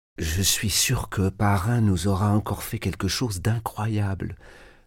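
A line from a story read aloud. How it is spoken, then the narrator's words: Murmuring. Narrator (French): murmura Marie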